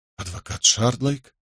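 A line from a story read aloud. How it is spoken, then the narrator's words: Muttered. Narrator (Russian): пробормотал он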